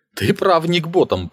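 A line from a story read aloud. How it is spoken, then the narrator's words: Grumbling after laughter. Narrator (Russian): проворчал Дон, закончив смеяться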